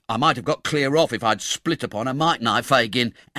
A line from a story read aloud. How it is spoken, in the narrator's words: angrily pursued the poor half-witted dupe